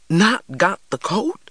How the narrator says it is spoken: cried Big Ma

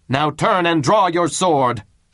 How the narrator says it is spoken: shouted Tybalt

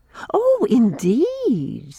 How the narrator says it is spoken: said Irene, laughing as if she didn't believe me

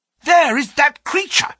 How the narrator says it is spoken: cried Grant Munro

